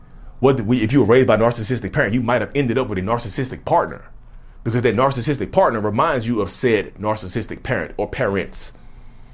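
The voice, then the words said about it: Preacher-like sermon cadence. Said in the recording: “I sound like a preacher. ... What am I, my voice? Who am I right now?”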